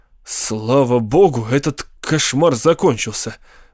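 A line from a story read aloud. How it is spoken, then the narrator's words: Groaned with relief. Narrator (Russian): простонал Кастнер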